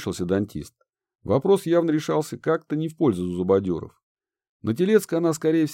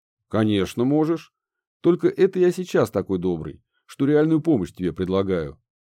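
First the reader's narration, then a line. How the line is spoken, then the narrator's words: Plain. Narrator (Russian): ответил дантист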